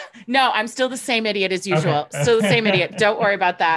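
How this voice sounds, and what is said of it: Usual voice. Nothing is said of it.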